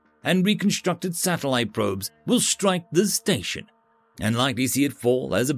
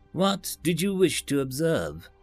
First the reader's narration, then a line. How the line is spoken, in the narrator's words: Tristan called after him